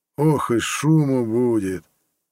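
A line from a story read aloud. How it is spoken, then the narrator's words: Sighing. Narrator (Russian): вздохнул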